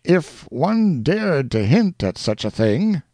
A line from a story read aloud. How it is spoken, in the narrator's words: cried Major Duncan